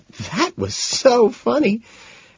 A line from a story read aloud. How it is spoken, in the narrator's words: between giggles she lets out